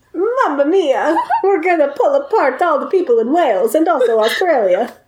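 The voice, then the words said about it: Put-on Italian accent. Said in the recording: “I don't know why I came out Italian ... just doing Italian”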